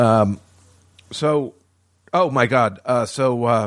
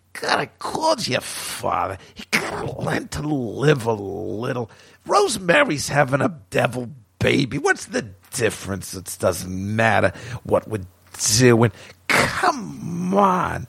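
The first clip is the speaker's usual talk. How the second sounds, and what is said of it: Imitates another person's voice. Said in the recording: “my Ruth Gordon imitation”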